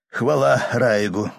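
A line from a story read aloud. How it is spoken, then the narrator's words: Captain's exhaled words. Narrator (Russian): выдохнул капитан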